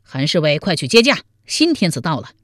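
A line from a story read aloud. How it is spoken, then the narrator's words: Loud shout. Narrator (Chinese): 王彦生见了韩通，高声喊道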